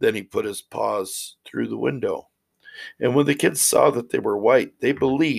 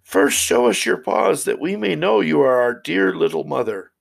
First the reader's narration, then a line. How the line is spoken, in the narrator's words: The little kids cried